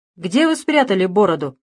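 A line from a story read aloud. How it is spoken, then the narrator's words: Loud question. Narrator (Russian): громко спросил прокурор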